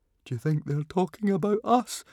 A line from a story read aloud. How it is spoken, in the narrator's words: whimpered Fishlegs